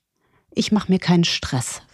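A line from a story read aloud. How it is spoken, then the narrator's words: Barely audible whisper. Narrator (German): flüsterte so leise, dass nur er selbst sich hören konnte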